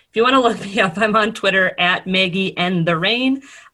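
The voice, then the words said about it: Midwestern American accent. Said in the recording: “my Midwest accent”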